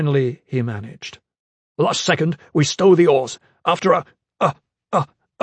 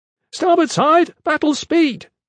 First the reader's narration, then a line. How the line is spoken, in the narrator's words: Strap shouted